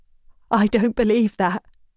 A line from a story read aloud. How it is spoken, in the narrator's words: Kara manages, her voice shaking